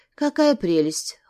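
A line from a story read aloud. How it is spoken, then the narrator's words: Cold reply. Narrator (Russian): холодно ответила я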